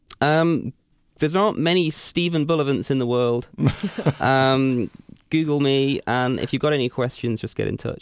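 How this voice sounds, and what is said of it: Upper-class English accent. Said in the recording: “your English, because you immediately sound smart to all Americans ... That Downton Abbey accent.”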